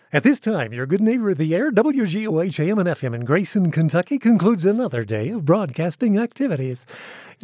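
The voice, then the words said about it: Deep chesty 1960s radio announcer voice. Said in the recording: “my old radio voice, which was a 1960s Casey Kasem kind of voice, which is more from the chest ... that's from the chest”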